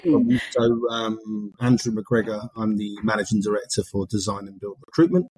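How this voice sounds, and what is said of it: Speaks with an accent. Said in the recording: “you do have an accent.”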